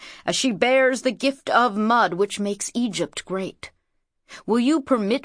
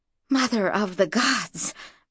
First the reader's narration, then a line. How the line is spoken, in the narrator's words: breathed Mara